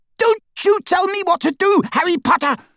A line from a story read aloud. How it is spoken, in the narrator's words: she screeched